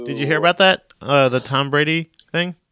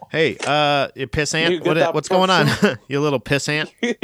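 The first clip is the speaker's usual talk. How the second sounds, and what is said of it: Put-on Philly-sounding American accent. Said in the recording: “That's not the right accent... That was closer to a Philly accent than it was in New England.”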